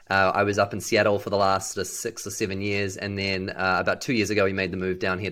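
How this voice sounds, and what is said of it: Unusual New Zealand accent. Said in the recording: “I have a strange accent... some people asked me if I was from Texas... I was born and raised in New Zealand”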